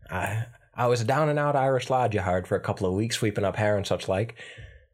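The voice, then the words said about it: Slower put-on Irish accent. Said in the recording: “the faster Irish accent a lot easier than I can the... I can't do that one as easy as I can the other one, but I chose to do that one for the play”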